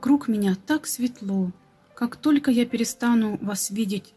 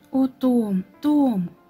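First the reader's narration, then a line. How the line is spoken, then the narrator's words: Exclamation. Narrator (Russian): воскликнул Баннер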